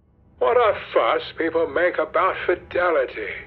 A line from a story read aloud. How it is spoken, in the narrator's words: exclaimed Lord Henry